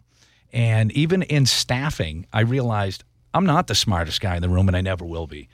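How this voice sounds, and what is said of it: Nasal Boston accent. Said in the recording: “I have a Boston nasally accent”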